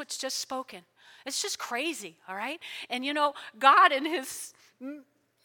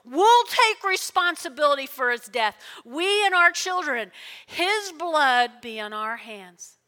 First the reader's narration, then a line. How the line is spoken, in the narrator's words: all the people yelled back